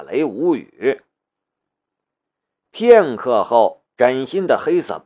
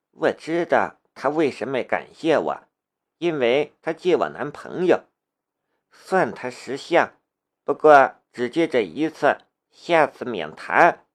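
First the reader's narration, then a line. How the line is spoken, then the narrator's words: Whispering softly. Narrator (Chinese): 小声的道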